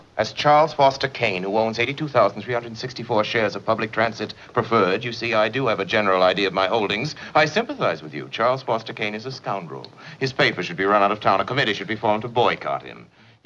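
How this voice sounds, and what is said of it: Acquired upper-class theatrical accent. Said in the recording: “This is not the way anyone actually grew up speaking. This accent is totally acquired ... a form of speech that was taught in elocution classes in, like, super upper crusty prep schools”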